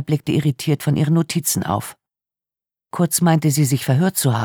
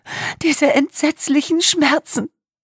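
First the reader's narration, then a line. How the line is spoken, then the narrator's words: Sobbing. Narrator (German): setzte Wagenbach schluchzend hinzu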